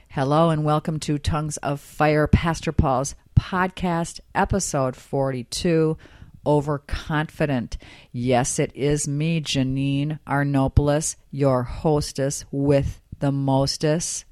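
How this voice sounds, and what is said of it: Slightly raspy voice. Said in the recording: “My voice is a little bit raspy, ... I have what you call a summer cold ... I'm a little raspy”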